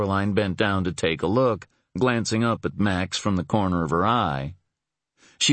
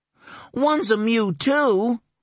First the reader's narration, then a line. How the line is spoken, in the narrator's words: the other boy exclaimed, as if that meant something